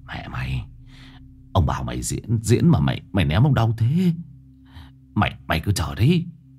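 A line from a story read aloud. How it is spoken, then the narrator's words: Whispering. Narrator (Vietnamese): Nó thì thầm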